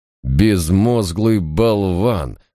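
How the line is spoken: Through gritted teeth. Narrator (Russian): процедил Мальверер

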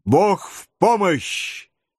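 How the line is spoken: Shouted in chorus. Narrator (Russian): крикнули Падди О'Мур и его семья

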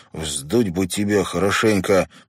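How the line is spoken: Through gritted teeth. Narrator (Russian): процедил Дэнни брату

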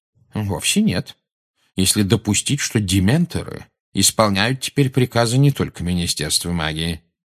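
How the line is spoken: Calm objection. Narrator (Russian): спокойно возразил Дамблдор

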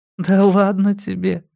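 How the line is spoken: Laughing. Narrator (Russian): засмеялась Мия

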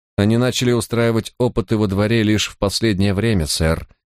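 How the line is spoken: Plain. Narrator (Russian): ответила Сьюзен

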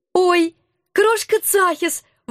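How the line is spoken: Delighted squeal. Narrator (Russian): восторженно взвизгнула я

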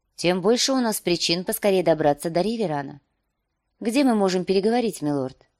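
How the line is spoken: Calm reply. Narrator (Russian): она спокойно ответила

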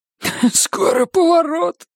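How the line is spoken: Hoarse. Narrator (Russian): прохрипел Бобби

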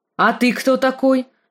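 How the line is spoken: Commanding question. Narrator (Russian): спросил он командным тоном

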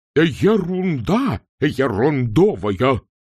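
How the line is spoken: Roaring. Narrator (Russian): взревел декан

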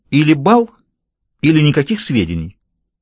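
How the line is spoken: Whiny insistence turning firm. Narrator (Russian): Она говорила с капризной настойчивостью хнычущего ребенка, но вдруг она твердым голосом объявила ультиматум

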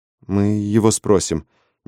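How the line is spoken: Uncertain suggestion. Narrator (Russian): неуверенно предложила я

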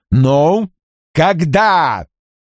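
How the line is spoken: Shout. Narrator (Russian): крикнул

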